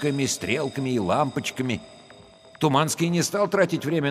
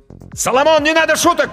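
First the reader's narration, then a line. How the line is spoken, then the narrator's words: Shouted. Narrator (Russian): крикнул Данька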